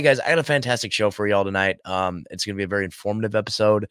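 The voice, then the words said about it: Raspy, hoarse voice. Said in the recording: “I'm kind of losing my voice here a little bit... I got a raspy voice. I've just been doing a lot of talking the last couple days”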